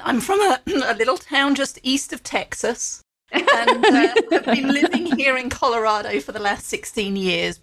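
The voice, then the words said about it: British English accent. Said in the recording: “I love your accent ... you'll tell from the accent ... originally from the UK ... my early career was in England”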